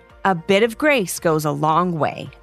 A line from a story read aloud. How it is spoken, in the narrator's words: their mother said